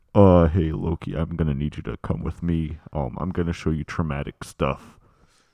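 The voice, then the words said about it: Imitates a film character's voice. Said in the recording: “my impression of Mobius and Loki”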